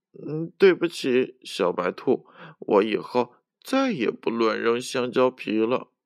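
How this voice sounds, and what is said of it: Soft, quiet voice. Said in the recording (Chinese): “小声的说”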